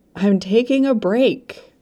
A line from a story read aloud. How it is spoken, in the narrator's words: shouted through the door